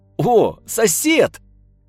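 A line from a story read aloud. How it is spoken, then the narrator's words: Warm, hearty shout. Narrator (Russian): радушно закричал Степан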